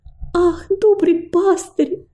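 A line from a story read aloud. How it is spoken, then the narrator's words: Exclaimed timidly. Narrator (Russian): воскликнула робость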